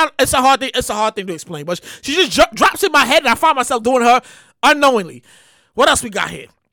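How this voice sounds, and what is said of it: Usual voice. Nothing is said of it.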